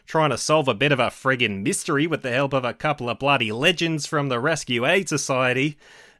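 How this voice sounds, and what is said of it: Put-on Australian accent. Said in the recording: “one of the only accents I can vaguely do is an Australian accent”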